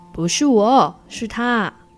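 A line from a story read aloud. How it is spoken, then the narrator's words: Loud roar. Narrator (Chinese): 黑豹吼得好大声哦，连树干都震动了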